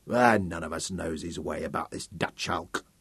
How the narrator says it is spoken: Sam Bowles muttered

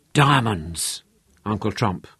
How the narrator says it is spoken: Manfred whispered

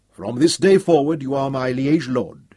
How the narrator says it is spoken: he said in a strong, clear voice

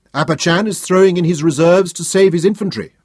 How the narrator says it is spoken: Memnon shouted above the din of battle

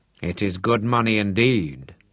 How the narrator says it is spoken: he said

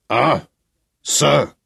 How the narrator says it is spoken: growled the man in the beaver

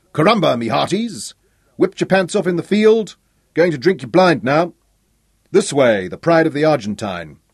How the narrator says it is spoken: the shouting

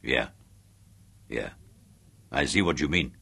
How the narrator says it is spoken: grunted Chubby

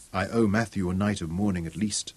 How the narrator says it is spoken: Zuga whispered

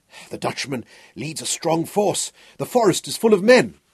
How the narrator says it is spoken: Hal panted

